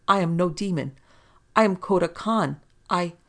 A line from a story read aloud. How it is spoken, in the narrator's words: he begged, trembling like a leaf